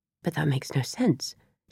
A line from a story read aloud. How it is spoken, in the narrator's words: muttered in confusion